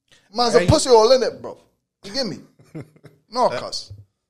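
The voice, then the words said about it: Put-on South London accent, sounds Jamaican. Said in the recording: “my British accent ... That doesn't sound British, bro. That sounds like Jamaican ... like in like South London, like they talk like that”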